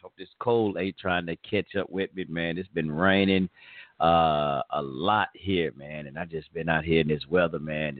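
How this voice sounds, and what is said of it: Hoarse voice. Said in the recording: “Got a little hoarse. I'm getting a little hoarse”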